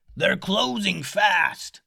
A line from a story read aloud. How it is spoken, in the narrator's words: a crew member up in the crow's nest yell